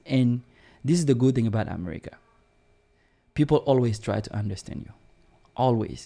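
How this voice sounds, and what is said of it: French-accented English. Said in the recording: “I'm self-conscious that I have accent. I do know that I have an accent. ... coming from a French culture”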